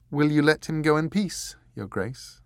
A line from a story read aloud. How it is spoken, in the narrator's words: she asked